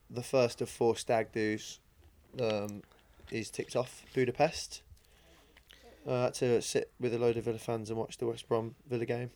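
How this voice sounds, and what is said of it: Slightly hoarse voice. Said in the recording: “the bit of a hoarse voice”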